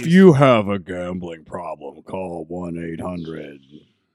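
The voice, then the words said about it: Public service announcer voice. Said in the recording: “that's just my, PSA guy voice, like the Saturday Night Special guy”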